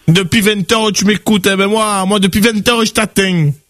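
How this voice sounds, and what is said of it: French accent from Nice. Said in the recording (French): “T'as un bon accent ... l'accent de Nice”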